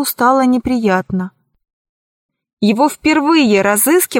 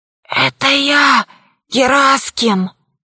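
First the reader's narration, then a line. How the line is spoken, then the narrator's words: Hoarse wheeze. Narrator (Russian): Пашка прохрипел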